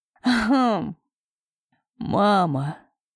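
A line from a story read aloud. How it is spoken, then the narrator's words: Ringing sincere laugh. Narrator (Russian): рассмеялся звонко и искренне, впервые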